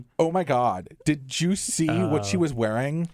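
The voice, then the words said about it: Valley Girl impression. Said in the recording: “Valley Girl ... And that was perfect.”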